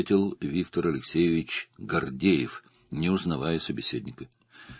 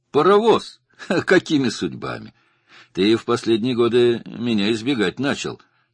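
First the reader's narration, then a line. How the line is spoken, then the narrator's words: Mocking tease. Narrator (Russian): насмешливо поддел его Гордеев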